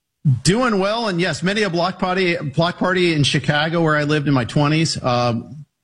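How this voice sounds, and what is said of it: Chicago accent. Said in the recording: “when you said Chicago, I heard the accent come out there for a second”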